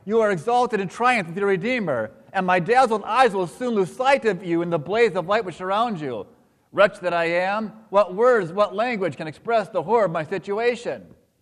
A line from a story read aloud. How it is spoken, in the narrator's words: I cried